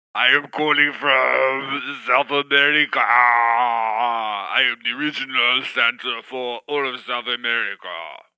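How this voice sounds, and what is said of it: Festive put-on character accent. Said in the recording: “that is a very festive accent you have”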